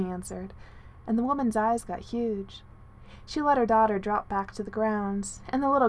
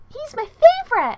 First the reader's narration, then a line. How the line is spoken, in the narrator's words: she squeaked